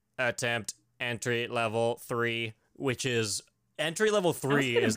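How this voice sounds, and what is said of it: Robot voice impression. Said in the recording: “That's a good impression. ... I'll do all the robots.”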